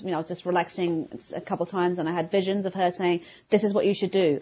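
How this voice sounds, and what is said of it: London English accent. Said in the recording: “I'm from London, as everybody probably can hear from my accent.”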